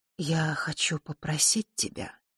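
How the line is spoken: Quiet but clear. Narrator (Russian): тихо, но отчетливо произнесла фея

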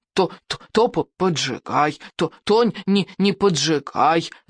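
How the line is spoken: Whining. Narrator (Russian): захныкал Беззубик

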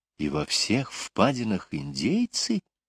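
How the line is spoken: Whispered question. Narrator (Russian): шепотом спросила Лора

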